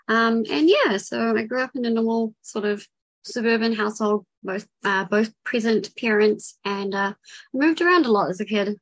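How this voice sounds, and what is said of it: New Zealand accent. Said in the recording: “If it's not obvious by accent, I'm from New Zealand.”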